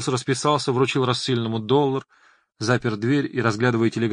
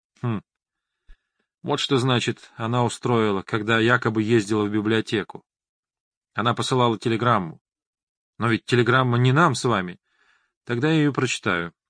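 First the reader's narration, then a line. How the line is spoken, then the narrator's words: Calm reply. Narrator (Russian): спокойно отозвался доктор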